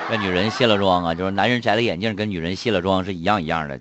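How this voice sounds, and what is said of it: Shandong-flavored accent. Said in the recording (Chinese): “你也是山东味儿啊？ ... 这个梦做完了之后，这个口音啊就变了”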